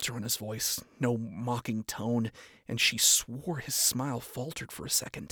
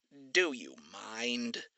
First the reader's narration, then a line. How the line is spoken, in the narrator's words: He grumbled